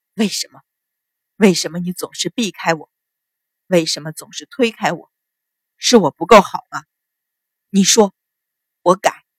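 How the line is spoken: Hurt, hoarse voice. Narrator (Chinese): 淳于信的眼底掠过一丝受伤的神情，哑声道

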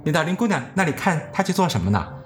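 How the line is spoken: Plain question. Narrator (Chinese): 她就问我

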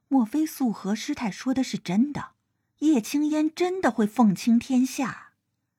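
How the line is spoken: Low voice. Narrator (Chinese): 叶昭传 低声说道

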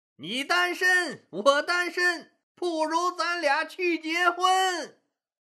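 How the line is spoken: Shouted. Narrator (Chinese): 不知谁向台下的女人们喊

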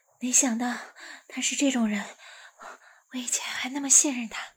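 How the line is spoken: Out of breath. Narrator (Chinese): 一直跑到一个小树林里，才喘着气说道

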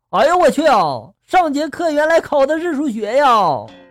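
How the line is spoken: Shouting exclamation. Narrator (Chinese): 一个人这时候喊出了一句话

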